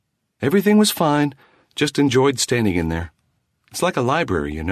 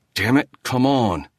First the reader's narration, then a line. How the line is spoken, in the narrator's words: he muttered